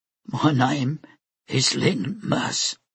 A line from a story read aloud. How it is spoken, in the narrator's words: she said in a low voice